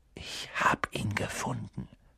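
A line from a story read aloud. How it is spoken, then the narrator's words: Whisper. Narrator (German): flüsterte er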